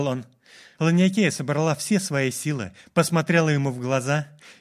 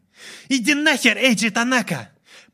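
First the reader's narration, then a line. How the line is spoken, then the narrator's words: Shouting. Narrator (Russian): прокричала она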